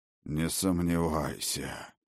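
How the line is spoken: Hoarse. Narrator (Russian): по-прежнему хрипло отозвался Один

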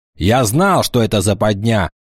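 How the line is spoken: Angry. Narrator (Russian): сердито ответил орк

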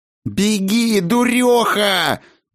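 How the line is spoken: Shrieking inside head. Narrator (Russian): завизжала Аэссонна внутри Ирминой головы

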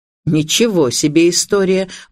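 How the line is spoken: Indignant tone. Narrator (Russian): возмущенным тоном произнес полковник

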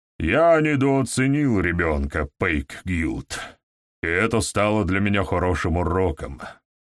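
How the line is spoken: Grumbling. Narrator (Russian): проворчал Гаур

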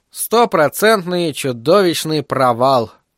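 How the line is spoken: Sad mutter. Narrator (Russian): печально буркнул Айзек

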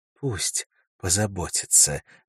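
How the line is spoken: Soft. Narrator (Russian): мягко сказала Элис

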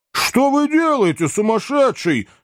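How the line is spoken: Shouting. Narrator (Russian): закричал Сэм

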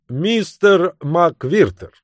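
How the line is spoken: Loud announcement. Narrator (Russian): громко возвестил

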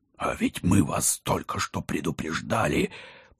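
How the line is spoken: Growl. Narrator (Russian): прорычал Алекс

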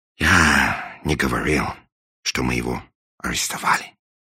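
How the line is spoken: Sigh. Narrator (Russian): вздохнул англичанин

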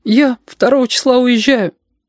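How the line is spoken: Thin, plaintive voice. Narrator (Russian): сказала Сашка, и сама поразилась, как тонко и жалобно прозвучал ее голос

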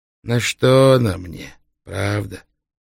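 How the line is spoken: Sighing. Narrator (Russian): вздохнул судья

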